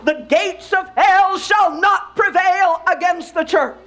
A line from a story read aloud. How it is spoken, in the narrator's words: as the preacher came to a climax, he shouted